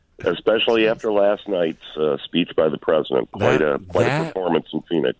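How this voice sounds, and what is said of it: Stuffed-up congested voice. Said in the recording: “You sound a little stuffed up right now ... I sound worse than I feel”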